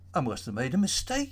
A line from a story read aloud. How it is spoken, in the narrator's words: said, laughing